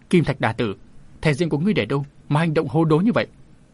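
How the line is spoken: Indignant shout. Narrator (Vietnamese): Ngũ Đinh Quái Đà cũng thấy hành động của Kim Giáp Thần Đà là vô lý, nên ông ta thét

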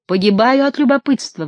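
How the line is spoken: Sudden exclamation. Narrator (Russian): вдруг воскликнула Гетера

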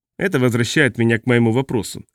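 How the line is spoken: Scoffing. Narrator (Russian): хмыкнул Раймон

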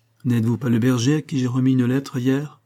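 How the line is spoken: Plain. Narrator (French): dit-il

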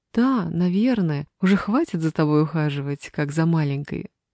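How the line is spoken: Laughing. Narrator (Russian): рассмеялась Мила

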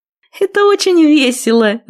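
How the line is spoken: Laughing. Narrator (Russian): засмеялась она

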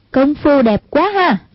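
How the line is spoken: Girl's admiring exclamation. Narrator (Vietnamese): một giọng con gái kêu lên khen ngợi

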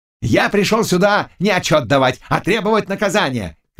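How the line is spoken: Shout. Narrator (Russian): кричал Лащ

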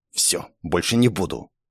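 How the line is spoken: Offended mutter. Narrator (Russian): обиженно буркнула

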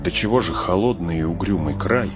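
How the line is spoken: Shivering mutter. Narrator (Russian): зябко поежившись, пробормотал Фродо

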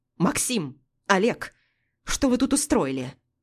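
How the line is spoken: Barked. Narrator (Russian): Рявкнула Анна Сергеевна

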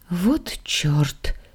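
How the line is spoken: Frightened gasp. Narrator (Russian): испуганно охнула я

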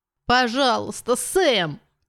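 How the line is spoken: Moaning plea. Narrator (Russian): простонала она

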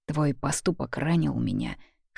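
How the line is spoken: Hoarse father. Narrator (Russian): хрипло добавляет папа

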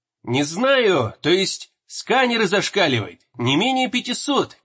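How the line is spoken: Shout over radio. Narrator (Russian): крикнула рация

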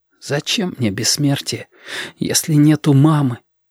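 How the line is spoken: Whispered. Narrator (Russian): шепотом сказал ежики

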